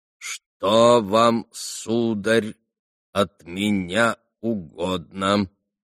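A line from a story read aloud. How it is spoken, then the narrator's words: Slow, stern but polite. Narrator (Russian): проговорил старик, медленно, раздельно, строго, но вежливо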